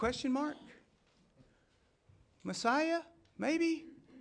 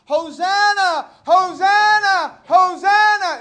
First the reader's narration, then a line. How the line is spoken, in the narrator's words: There are throngs of people that are screaming